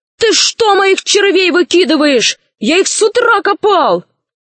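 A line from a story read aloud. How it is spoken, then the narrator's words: Shout. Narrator (Russian): удалов закричал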